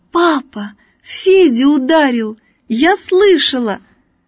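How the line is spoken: Joyful shout. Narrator (Russian): Надя радостно закричала

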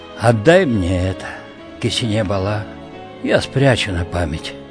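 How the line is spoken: Quiet. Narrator (Russian): тихо сказала

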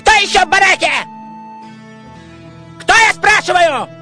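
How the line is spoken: Shouting. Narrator (Russian): кричал надзиратель

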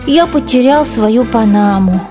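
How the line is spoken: Sad. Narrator (Russian): печально сказал Генри

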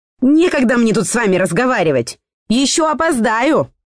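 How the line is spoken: Shouted over shoulder. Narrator (Russian): крикнула тетка через плечо

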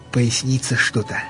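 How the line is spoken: Unusually quiet. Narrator (Russian): необыкновенно тихо заговорил

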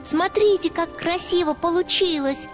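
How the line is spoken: Proud child's squeak. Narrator (Russian): гордо пропищал малыш

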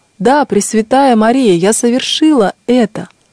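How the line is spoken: Loud exclamation, voice regained. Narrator (Russian): вернулся к ней голос, и она громко воскликнула

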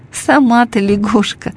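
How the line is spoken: Laughing. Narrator (Russian): засмеялся Алешка

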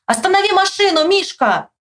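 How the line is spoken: Shout. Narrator (Russian): закричал

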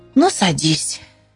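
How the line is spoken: Sighing. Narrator (Russian): он вздохнул и сказал

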